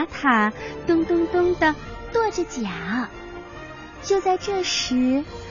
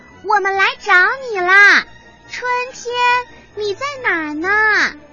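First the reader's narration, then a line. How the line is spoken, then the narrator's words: Loud shout. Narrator (Chinese): 马库大声的喊着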